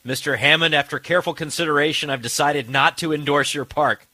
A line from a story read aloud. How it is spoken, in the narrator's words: Alan Grant he yells